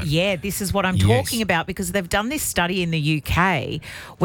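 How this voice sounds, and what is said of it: Broad Australian accent. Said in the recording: “I think I'm more broad on the radio ... Like a broad Australian accent. ... It's very broad.”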